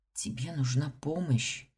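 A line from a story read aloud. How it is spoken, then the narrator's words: Whisper. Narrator (Russian): шепнула я Ингу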